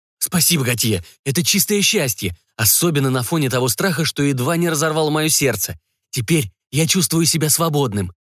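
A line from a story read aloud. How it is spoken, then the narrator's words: Dreamy babbling. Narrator (Russian): мечтательно лепетал Бессон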